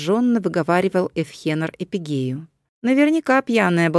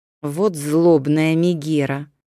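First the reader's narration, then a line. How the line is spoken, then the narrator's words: Through gritted teeth. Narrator (Russian): процедил сквозь зубы Эпигей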